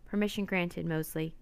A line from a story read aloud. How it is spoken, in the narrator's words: said the captain